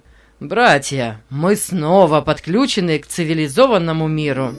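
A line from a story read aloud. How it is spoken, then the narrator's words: Laughing. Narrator (Russian): смеясь, сообщил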